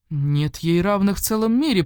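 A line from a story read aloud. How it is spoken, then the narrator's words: Exclamation. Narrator (Russian): воскликнул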